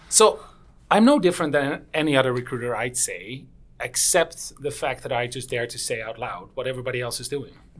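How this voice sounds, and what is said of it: Dutch accent. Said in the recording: “still has the accent. He's the true Dutch.”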